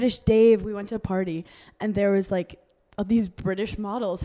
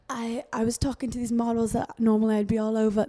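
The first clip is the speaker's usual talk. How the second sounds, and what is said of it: Put-on British accent. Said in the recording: “This is my British accent.”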